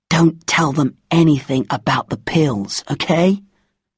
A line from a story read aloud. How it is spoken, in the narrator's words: Karting whispered